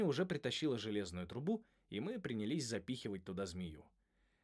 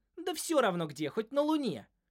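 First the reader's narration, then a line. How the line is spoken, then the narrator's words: Snapping retort. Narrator (Russian): огрызнулась Холли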